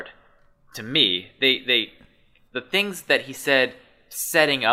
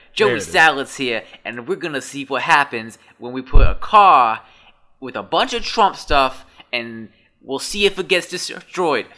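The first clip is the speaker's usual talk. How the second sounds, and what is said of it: Put-on New Jersey accent. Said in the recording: “Is that a good New Jersey accent? I feel like that was a bad New Jersey accent... A good Joey Salads... There, that's better.”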